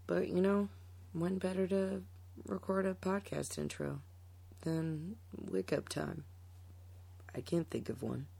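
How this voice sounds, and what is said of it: Raspy just-woke-up voice. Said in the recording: “As you can tell by my raspy demeanor, I just woke up.”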